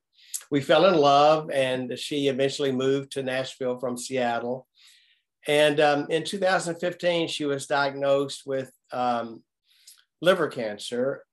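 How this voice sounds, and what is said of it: Nashville Southern accent. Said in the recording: “I lived in Nashville, which you can probably tell by the accent.”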